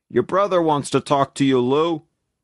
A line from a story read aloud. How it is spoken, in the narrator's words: Emil, the head barber, called out